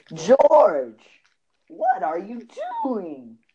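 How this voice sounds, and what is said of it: Jerry Seinfeld impression. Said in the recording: “a Jerry Seinfeld impersonation ... That sounds like George, a 13-year-old boy.”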